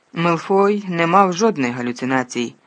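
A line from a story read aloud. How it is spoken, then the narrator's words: Barked. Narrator (Ukrainian): гаркнув Снейп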